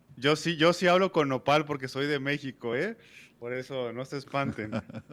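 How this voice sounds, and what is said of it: Hoarse voice. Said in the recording (Spanish): “la, voz ronca de nuestro amigo ... que se escucha diferente”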